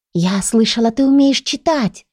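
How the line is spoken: Conspiratorial whisper. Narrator (Russian): раздался заговорщицкий шепот

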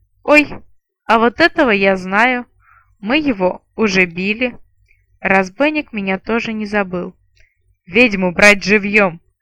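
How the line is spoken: Through gritted teeth, pausing. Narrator (Russian): Процедил он сквозь зубы и, помедлив, добавил

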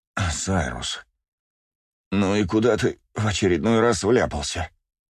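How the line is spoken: Groaning aloud. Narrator (Russian): Вслух простонал псион

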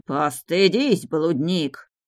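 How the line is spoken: Barking mage. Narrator (Russian): рявкнул маг

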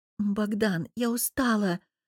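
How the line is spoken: Tired, reluctant whisper. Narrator (Russian): прошептала, понимая, что не готова к близости

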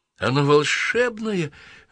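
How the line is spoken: Exclaiming. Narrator (Russian): воскликнула дверь

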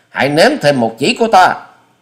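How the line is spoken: Shout. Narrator (Vietnamese): quát thêm

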